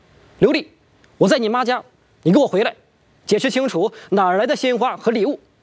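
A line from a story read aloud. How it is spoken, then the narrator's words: Furious interrogation. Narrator (Chinese): 张志强是愤怒至极，拨通了刘丽的手机质问道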